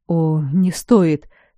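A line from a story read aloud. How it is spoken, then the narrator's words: Pale mumble. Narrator (Russian): пробормотал Дара, почему-то побледнев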